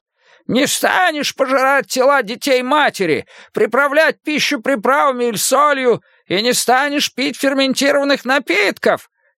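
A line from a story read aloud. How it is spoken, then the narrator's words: Yelling. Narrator (Russian): Нахардал как раз орал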